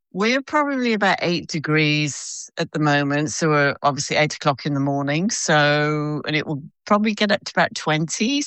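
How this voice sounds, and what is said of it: British accent with Australian twang. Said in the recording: “I can hear the Australian twang, but I feel like you're someone from Britain who's moved over there ... my British accent”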